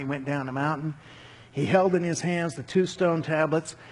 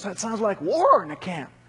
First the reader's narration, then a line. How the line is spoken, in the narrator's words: He exclaimed to Moses